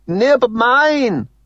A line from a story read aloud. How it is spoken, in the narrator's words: he shouts gleefully